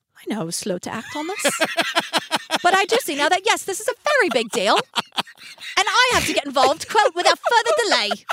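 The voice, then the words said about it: Put-on British cockney accent. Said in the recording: “could you give it to us in a British accent? ... No, he's cockney, kind of.”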